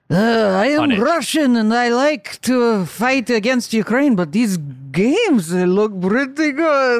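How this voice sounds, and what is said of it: Dracula-like Vladimir Putin impression. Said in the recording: “that's Vlad himself ... He's a little Dracula when I do him ... You should do a more respectful impression of that man.”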